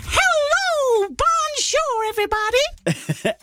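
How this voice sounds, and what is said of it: French Mickey Mouse impression. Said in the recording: “doing an impression of a French Mickey Mouse”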